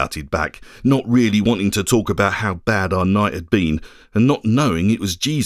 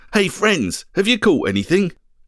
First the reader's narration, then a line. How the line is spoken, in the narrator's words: called out to us